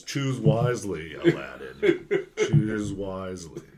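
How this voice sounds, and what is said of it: Disney villain voice. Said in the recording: “The Disney villain voice over here.”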